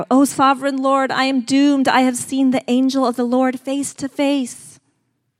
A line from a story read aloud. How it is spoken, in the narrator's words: Gideon realized that it was the angel of the Lord, he cried out